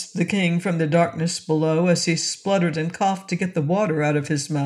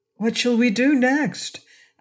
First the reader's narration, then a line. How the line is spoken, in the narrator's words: asked the boy anxiously